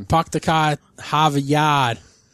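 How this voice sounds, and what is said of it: Exaggerated Boston accent. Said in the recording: “The familiar American form of this is the Bostonian... accent”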